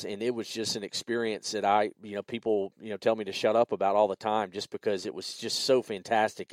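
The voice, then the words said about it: Southern US accent. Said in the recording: “where's the accent from? Yeah, it's from living here in the deep, dirty South.”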